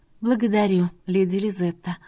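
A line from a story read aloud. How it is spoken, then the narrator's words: Relieved exhale. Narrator (Russian): облегченно выдохнула брюнетка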